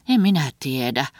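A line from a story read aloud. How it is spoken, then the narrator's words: Sighed. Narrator (Finnish): Helga huokasi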